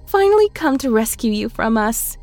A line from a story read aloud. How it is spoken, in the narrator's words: It laughed